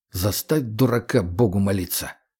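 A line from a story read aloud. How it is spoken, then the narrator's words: Displeased grumbling. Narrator (Russian): недовольно бурчал егерь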